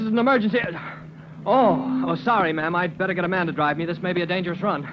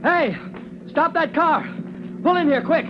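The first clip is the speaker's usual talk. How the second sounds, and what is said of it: Raised, shouting voice. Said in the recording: “raising your voice”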